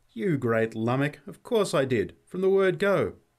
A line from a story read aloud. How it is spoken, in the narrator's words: There was something of the old tone in her voice when she laughingly replied